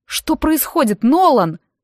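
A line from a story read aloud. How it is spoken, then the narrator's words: Shouted. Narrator (Russian): выкрикнула я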